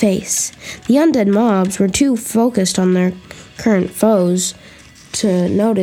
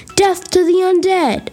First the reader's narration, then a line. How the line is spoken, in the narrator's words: he shouted